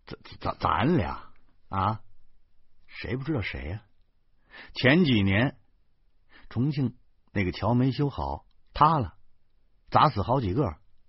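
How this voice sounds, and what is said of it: Quiet, hushed voice. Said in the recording (Chinese): “小声说”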